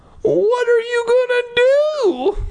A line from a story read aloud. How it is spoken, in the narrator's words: I cried